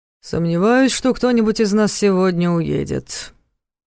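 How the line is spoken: Gloomy drawl. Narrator (Russian): мрачно протянул Сергей Смирнов

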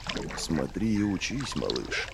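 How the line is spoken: Muttered. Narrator (Russian): пробормотал Девятипалый

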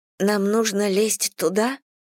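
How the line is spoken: Quiet and timid. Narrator (Russian): Она снова говорила тихо и робко, как мышка

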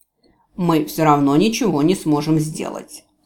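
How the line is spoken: Grumbled. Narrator (Russian): проворчал Джевидж

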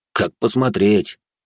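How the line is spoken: Skeptical snort. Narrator (Russian): хмыкнул тот

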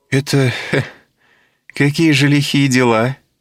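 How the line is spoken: Forced laugh, question. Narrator (Russian): Делано засмеявшись, спросила она

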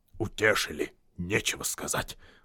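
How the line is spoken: Grumbling. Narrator (Russian): проворчал Торин

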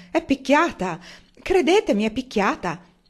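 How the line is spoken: Bold exclamation. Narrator (Italian): Lo zio Benjamin fu considerato decisamente troppo ardito quando esclamò

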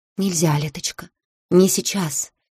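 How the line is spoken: Whisper, lips barely moving. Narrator (Russian): Каэтара шептала, почти не разжимая губ

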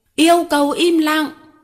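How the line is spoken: Shrill shout. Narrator (Vietnamese): Một giọng the thé thét lên

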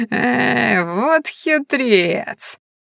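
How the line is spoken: Creaky old woman's laugh. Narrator (Russian): скрипуче рассмеялась старуха

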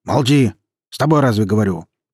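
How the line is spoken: Menacing bark. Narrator (Russian): Грозно повысив голос, рявкнул Аслан

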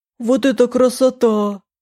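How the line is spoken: Exclaiming man. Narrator (Russian): воскликнул он

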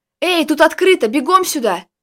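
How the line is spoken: Shouting. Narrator (Russian): крикнул Костя, стоявший возле открытой им двери чуть дальше по коридору

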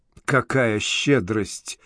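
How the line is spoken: Muttered. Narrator (Russian): пробормотал Коул

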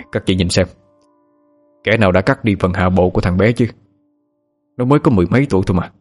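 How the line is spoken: Sighing, grieved. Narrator (Vietnamese): thầy Khoa thở dài rồi nói với các cô giáo cùng trường

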